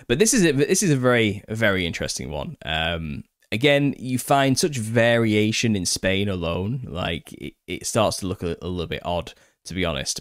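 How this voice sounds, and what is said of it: Northern accent. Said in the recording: “my northern accent”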